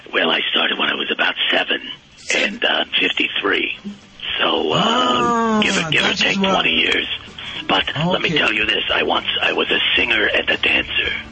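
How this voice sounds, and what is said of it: Slightly rough, raspy voice. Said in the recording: “She has a little bit of a rough voice”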